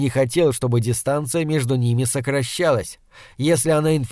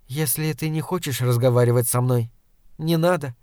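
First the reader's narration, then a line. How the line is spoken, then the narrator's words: Calm. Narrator (Russian): спокойно сказала она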